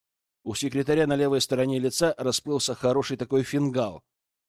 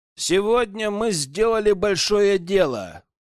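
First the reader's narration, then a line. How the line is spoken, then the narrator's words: Loud address to troops. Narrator (Russian): громко обращаюсь к солдатам и офицерам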